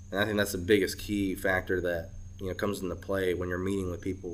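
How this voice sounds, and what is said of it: American Southern accent. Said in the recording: “I'm a Korean guy living in Alabama with ... a southern accent.”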